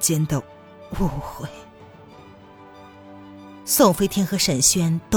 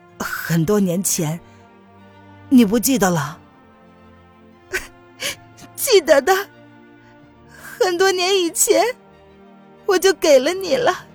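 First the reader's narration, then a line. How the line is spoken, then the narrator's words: Hazy smiling voice. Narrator (Chinese): 钱丹依旧是朦胧的笑着说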